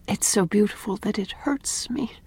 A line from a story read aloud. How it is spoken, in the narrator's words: said Anne softly